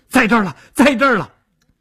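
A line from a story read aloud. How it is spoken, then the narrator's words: Excited shouting. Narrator (Chinese): 朱刚极为兴奋 嘴里嚷道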